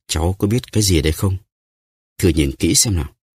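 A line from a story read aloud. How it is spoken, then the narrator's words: Smiling question. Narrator (Vietnamese): Ông mỉm cười, hỏi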